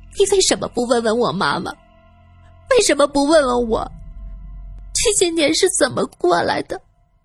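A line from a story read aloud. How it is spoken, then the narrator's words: Trembling tearful question. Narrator (Chinese): 素云浑身发抖，她带着哭腔问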